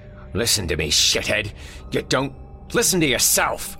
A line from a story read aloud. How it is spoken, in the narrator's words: snapped